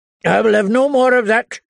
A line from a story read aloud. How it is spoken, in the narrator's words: Lord Randall told his wife harshly